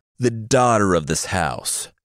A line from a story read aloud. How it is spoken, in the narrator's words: the ogre above yelled